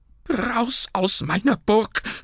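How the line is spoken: Shout. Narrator (German): schrie Burkhard

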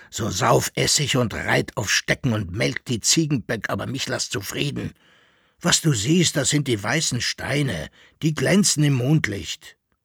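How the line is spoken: Grumbled. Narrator (German): brummte Koppelbär

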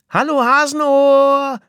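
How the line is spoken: Called out. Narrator (German): rief sie

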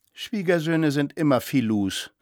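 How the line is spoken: Dull, hollow voice. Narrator (German): sagte Frau Permaneder mit dumpfer Stimme

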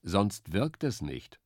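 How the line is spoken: Plain. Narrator (German): sagte Biber

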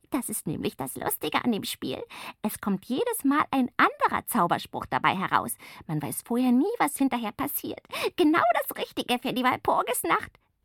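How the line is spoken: Giggling explanation. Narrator (German): erklärt kichernd

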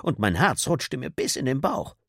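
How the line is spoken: Laughing woman. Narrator (German): lachte die Frau

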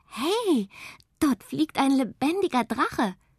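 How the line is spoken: Excited shouting. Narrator (German): aufgeregt rufen

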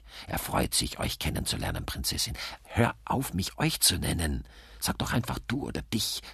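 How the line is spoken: Hissed. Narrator (German): zischt Gabriele

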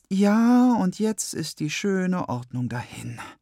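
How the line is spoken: Sigh. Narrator (German): seufzt Freitag

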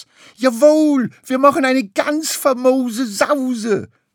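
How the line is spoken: Enthusiastic shout. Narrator (German): schrie Lachmöwe begeistert

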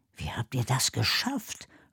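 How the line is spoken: Quiet question. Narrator (German): fragt leise

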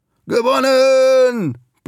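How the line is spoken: Joyful roar. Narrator (German): brüllt und strahlt übers ganze Gesicht

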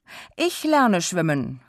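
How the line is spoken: Called out. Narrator (German): rief sie

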